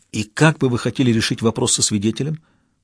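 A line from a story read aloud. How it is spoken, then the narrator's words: Whispered question. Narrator (Russian): также шепотом спросил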